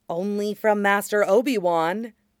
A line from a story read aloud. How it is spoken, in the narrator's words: Anakin mutters